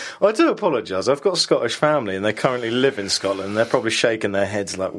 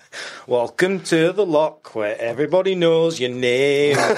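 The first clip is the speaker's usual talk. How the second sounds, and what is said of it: Poor put-on Scottish accent. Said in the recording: “That was a terrible Scottish accent.”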